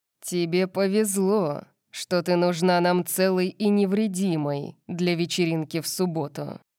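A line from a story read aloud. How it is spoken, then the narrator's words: Growling. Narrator (Russian): прорычал он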